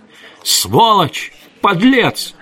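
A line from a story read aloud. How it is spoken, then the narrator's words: Hysterical screaming. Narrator (Russian): истошно орала она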